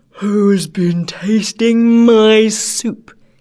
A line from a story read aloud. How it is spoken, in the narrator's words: he cried in a great big voice